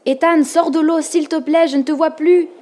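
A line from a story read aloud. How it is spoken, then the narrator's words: Exclaimed. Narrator (French): s'écria Ava en cherchant des yeux son frère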